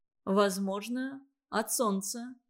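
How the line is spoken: Timid repetition. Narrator (Russian): повторил он, робко

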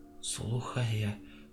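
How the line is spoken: Whisper. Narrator (Russian): прошептала

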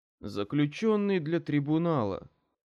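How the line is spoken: Bored guard's voice. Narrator (Russian): скучающим голосом произнес один из охранников

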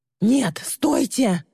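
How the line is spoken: Shrill scream. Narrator (Russian): завизжала Ли

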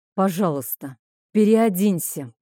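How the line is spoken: Calm, restrained. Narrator (Russian): произнес он уже спокойно и сдержанно

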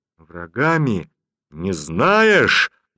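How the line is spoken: Menacing exclamation. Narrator (Russian): грозно воскликнул Сераштан

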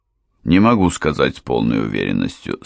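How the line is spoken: Calm reply. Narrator (Russian): спокойно ответил

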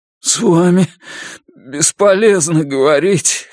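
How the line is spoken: Hoarse. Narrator (Russian): хрипло сказал Брезыч

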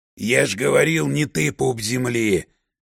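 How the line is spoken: Guttural growl, white wolf. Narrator (Russian): Гортанно прорычал белый волк, демонстрируя, что голосовые связки вполне подходят для разборчивых звуков

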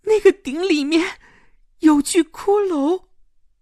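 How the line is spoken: Trembling voice. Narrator (Chinese): 齐家声音发颤地说

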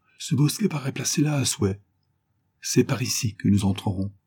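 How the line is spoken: Murmured. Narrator (French): murmura Belcoeur

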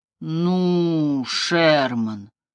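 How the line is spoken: Drawl. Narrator (Russian): протянул Киллиан

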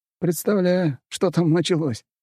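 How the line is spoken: Snorting chuckle. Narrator (Russian): хмыкнул Лёшка

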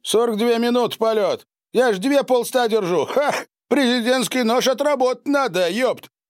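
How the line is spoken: Loud laughter. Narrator (Russian): Он расхохотался

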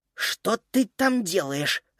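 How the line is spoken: Hiss. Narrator (Russian): зашипела Фрида

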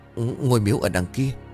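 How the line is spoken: Breathless stammering. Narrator (Vietnamese): đắp bắp nói không ra hơi

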